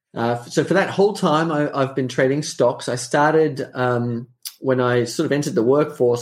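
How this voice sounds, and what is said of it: Australian accent. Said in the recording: “So I'm an Australian. You can probably tell from the accent.”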